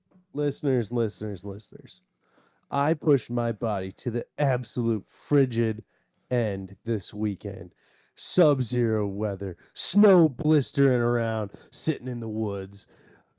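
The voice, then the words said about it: Sick, worn-out voice. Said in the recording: “my body couldn't take it. I've started to fall apart. ... I think you can hear it in my voice.”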